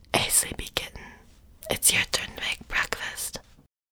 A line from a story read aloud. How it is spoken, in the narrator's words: You cheekily tickled my belly and whispered